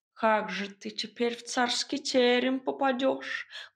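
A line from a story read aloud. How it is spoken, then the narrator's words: Mournful sigh. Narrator (Russian): горестно вздохнул Варфоломей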